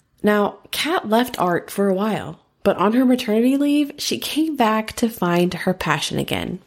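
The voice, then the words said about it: American accent. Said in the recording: “I love your accent too ... it seems super glamorous to have an American accent.”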